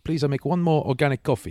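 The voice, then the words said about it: Imitated Romanian accent. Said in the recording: “Is that a Romanian accent or ... Russian? No, Romanian.”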